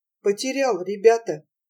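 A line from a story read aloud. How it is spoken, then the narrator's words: Hopeless tone. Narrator (Russian): проговорил он, наконец, безнадежным тоном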